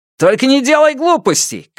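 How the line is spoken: Shout. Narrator (Russian): крикнул ему в спину Сяо Вон

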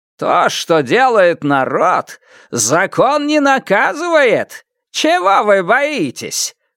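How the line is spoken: Roar. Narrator (Russian): взревел Лю Тяньшан

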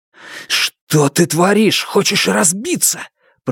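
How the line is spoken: Hiss. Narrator (Russian): прошипел Фан Му

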